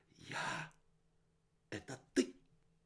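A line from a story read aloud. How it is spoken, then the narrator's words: Hissing. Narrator (Russian): Капюшон зашипел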